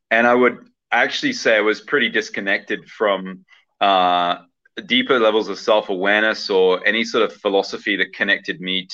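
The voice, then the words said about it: Hybrid southern English accent. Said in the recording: “my accent's a bit warped, I would say, or as kind of like a hybrid. So I actually grew up in the UK, in southern England”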